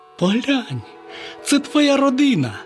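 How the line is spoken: Exclaiming. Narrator (Ukrainian): Славко вигукнув

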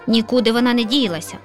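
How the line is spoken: Lazy grumble with yawn. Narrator (Ukrainian): ліниво буркнула сусідка і солодко позіхнула

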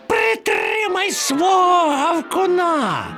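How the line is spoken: Shrieking. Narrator (Ukrainian): верещав Чмур

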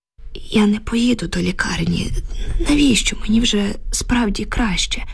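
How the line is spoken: Weak moaning. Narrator (Ukrainian): стогнала Люба слабким голосом

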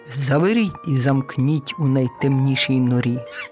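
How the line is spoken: Stern command after laughter. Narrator (Ukrainian): враз урвала сміх і суворо наказала

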